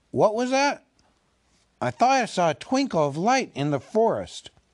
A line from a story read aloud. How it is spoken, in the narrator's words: Balin, who was a little way ahead, called out